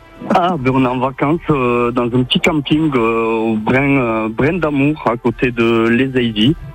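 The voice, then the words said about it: Sing-song southern French Catalan accent. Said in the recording (French): “Vous venez d'où avec cet accent qui chante? ... c'est ça que j'entendais, hein, le pays catalan”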